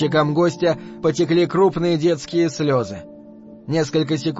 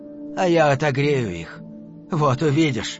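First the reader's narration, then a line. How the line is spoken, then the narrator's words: Quiet. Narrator (Russian): тихо сказал человек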